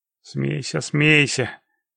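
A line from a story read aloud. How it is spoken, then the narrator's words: Mock-offended grumble. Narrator (Russian): пробурчал Володя, делая вид, что обиделся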